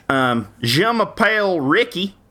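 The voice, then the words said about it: French accent with Southern American tinge. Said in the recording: “do a French accent with a Southern American tinge.”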